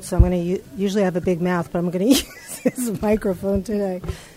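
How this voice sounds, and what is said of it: Slightly sick, congested voice. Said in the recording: “I have a little bit of a cold,”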